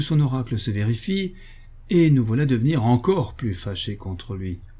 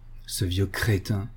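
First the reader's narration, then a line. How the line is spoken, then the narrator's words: Murmured. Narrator (French): murmurons-nous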